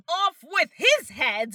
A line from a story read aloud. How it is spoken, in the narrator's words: the queen was in a furious passion and shouting